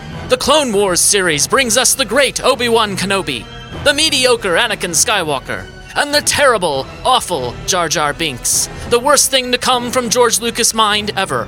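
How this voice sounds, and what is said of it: Imitates a TV narrator's voice. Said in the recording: “Did I do a passable imitation of that narrator? ... Yes, I think you did. I think you did a good job.”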